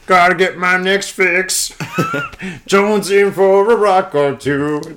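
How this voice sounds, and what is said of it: Bad Kermit the Frog impression. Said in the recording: “you sound like fucking Kermit the Frog fucking on crack doing that ... terrible Kermit the Frog impersonation.”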